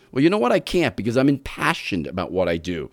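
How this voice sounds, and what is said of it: New York accent. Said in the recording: “lose that New York accent”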